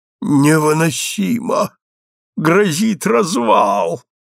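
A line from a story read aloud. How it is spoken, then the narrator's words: Despairing moan. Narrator (Russian): стонал Кобис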